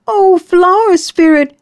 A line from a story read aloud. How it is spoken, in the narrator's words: she cried out